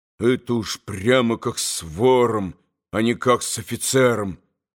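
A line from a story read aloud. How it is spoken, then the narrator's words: Grumbling to himself. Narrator (Russian): проворчал он про себя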